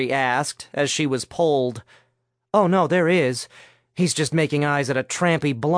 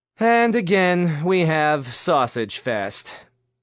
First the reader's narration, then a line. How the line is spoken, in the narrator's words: Nick said with a sigh